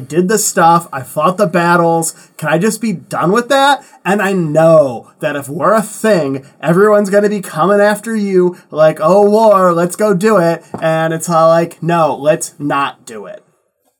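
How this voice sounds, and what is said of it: Valley Girl character voice. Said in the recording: “Was that the voice of Gilgamesh? ... Valley Girl voice”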